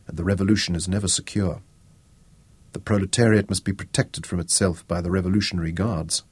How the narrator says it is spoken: he murmured

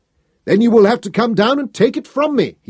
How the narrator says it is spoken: he shouted back

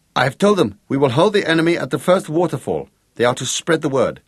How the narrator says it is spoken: Gregorius translated quickly

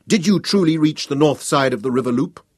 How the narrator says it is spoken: shouted back at him, hopping with excitement

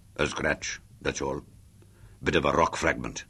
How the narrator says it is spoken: he growled

